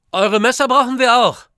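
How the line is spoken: Calls out. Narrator (German): ruft

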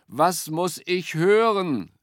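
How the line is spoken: Calling up. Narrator (German): rief er zu ihm hinauf

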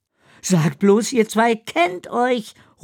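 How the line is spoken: Calling out. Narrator (German): ruft Ella

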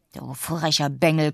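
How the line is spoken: Old man growling. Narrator (German): knurrt der alte Mann zu Gregorius hinunter

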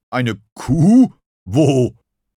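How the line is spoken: Hard-of-hearing growl. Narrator (German): knurrte Schaf, das schlecht hörte

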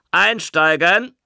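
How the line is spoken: Conductor calling out. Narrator (German): rief der Schaffner

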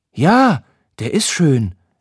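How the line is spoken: Sudden call. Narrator (German): rief Nala plötzlich

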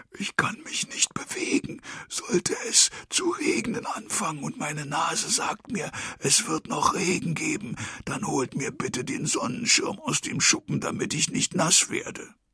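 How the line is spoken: Pause then grumble. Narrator (German): Er hält einen Augenblick inne, dann brummelt er

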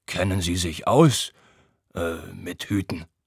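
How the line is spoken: Stammering. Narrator (German): stammelt er dann

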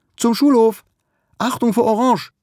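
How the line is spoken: Sudden call. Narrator (German): Plötzlich ruft sie

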